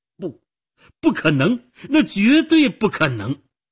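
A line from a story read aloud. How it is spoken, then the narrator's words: Murmur then shout. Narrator (Chinese): 他低吟了一声，然后大声喊着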